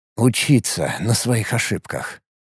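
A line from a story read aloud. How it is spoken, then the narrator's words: Grumbling. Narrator (Russian): проворчал я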